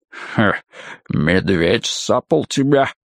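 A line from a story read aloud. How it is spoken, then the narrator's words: Mountain's snorting grunt. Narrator (Russian): хмыкнула гора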